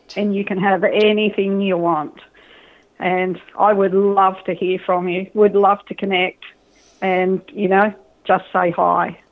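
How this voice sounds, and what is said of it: Australian accent. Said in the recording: “this message, by the way, is coming from Australia, if you couldn't pick that up with ... accent”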